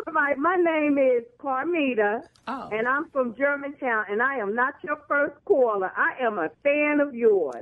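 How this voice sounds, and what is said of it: New Jersey or New York accent. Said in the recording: “she said caller. She's from Jersey or New York. She said caller. ... Did you see the accent? ... That's Jersey.”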